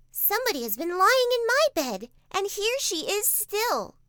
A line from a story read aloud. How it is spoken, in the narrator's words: said the little wee bear in his little wee voice